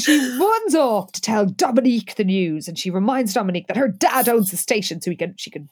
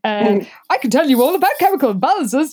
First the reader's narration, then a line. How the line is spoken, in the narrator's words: Jessica said cheerfully